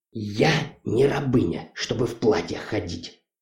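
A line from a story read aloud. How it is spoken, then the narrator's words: Muttered. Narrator (Russian): пробормотала байкерша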